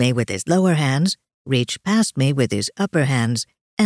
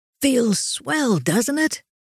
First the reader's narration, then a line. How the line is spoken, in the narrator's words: Jacob yelled back over his shoulder